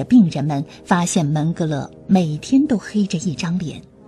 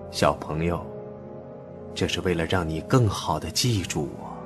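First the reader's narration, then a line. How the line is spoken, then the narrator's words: Cold. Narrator (Chinese): 门格勒冷冷地说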